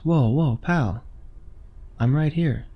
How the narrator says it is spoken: it said

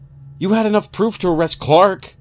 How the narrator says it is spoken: I shouted

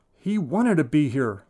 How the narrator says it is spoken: Mal shouts, the loudest I've ever heard her

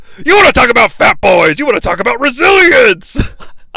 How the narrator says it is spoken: Vince did just yell

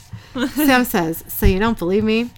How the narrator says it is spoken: Dean laughs

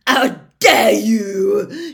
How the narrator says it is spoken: shrieked

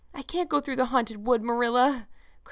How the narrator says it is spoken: cried Anne desperately

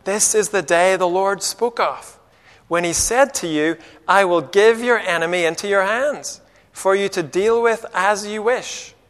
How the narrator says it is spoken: they whisper to David

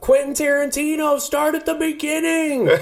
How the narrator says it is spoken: Somebody at one point, somebody yells out

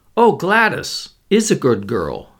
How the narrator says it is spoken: said Mr

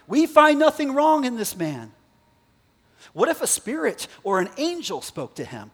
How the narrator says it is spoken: some of the scribes of the Pharisees' party stood up and contended sharply

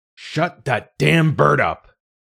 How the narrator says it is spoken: Dad's voice thundered from the other bedroom

